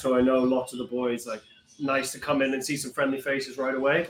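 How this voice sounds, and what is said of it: Slightly unusual mixed accent. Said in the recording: “accent's a little ... it's a little funky.”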